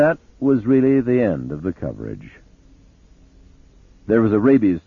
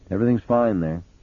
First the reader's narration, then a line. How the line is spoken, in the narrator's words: he said